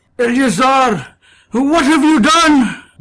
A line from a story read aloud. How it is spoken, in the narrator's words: Balthazar cried